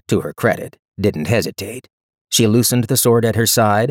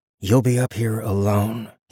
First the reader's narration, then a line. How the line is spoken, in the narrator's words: he said, in a low voice, which made it a bit better